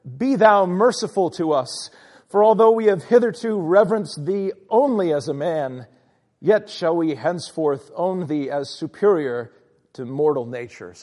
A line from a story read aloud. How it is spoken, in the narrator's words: flatterers cried out, added